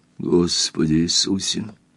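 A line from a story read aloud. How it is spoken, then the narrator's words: Barely audible. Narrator (Russian): еле слышно произнес он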